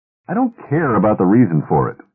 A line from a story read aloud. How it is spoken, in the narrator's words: said the trader impatiently